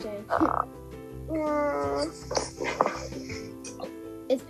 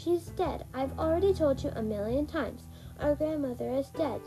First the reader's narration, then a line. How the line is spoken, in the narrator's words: said Sabrina